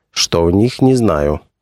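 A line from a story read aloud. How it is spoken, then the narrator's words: Plain. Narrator (Russian): сказал он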